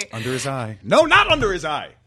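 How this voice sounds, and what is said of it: Yelling for comic effect. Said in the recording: “I'm yelling for effect”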